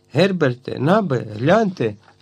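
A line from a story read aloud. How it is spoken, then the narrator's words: Exclaiming. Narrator (Ukrainian): вигукнув він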